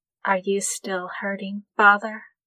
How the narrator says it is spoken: Su Shui said, quietly solicitous

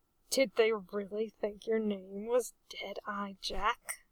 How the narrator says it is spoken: Arthur mumbled spitefully

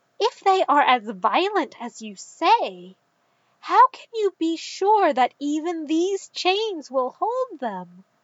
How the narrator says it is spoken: Ekreth gasped as though afraid and said

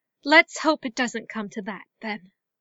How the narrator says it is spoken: said weakly

